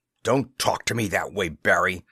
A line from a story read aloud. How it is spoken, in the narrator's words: Chessman growled truculently